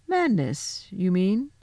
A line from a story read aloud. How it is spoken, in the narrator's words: said the professor quite coolly